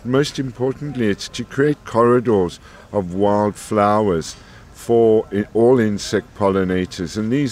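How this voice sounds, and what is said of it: South African accent. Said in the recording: “judging by your accent, you're not from Scotland ... I'm South African”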